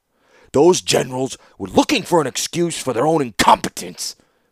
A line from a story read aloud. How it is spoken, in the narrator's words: snarled Mishra